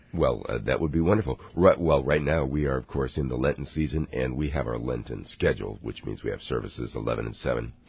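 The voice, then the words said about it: Low, rough voice from a cold. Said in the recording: “Dealing with a little bit of a cold there, are you? ... Got a pony there? Got a little horse? ... I'm just kind of, the bottom's dropped out. ... You sing the bass line”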